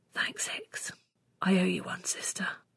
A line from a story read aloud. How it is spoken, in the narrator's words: let out a huge breath and whispered